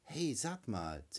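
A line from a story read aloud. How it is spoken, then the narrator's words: Hissing. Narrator (German): zischt die Stimme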